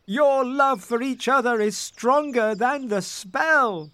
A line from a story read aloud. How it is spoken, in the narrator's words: they cried